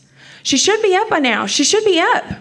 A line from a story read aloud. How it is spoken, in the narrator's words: Mom started exclaiming anxiously